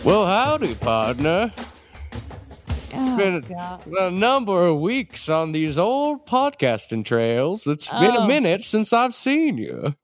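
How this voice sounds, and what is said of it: Old-timey prospector character voice. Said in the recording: “sometimes ... turns into an old-timey character called Prospector Joe”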